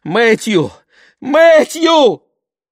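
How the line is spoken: Hoarse wheezing, coughing. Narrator (Russian): Он захрипел, закашлялся

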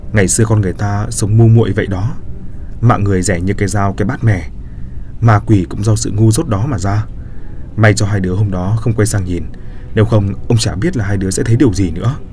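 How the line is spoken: Sighing. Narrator (Vietnamese): Ông chỉ thở dài và nói

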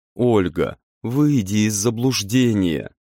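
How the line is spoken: Pleading voice. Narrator (Russian): продолжал умоляющим голосом

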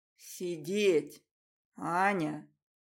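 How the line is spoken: Insinuating, silky voice. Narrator (Russian): Вкрадчиво произносит он

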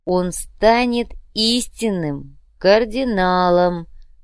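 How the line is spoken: Drawling. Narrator (Russian): протянул Артем

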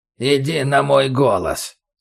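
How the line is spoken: Creaky voice from corner. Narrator (Russian): снова проскрипело в углу

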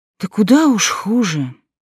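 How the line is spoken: Sighing. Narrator (Russian): вздохнула

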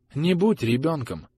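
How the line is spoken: Very quiet. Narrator (Russian): очень тихо сказал Мэйрик

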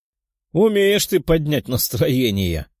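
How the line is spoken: Chuckling. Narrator (Russian): хохотнул кто-то из толпы

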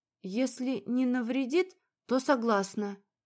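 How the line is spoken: Tired reply. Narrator (Russian): ответила устало

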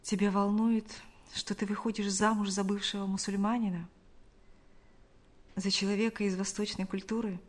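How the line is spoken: Quiet question. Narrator (Russian): Шамиль тихо спросил

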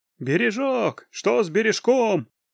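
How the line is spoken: Crowd shouting. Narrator (Russian): кричали люди

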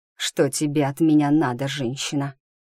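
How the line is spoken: Hiss. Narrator (Russian): прошипел он

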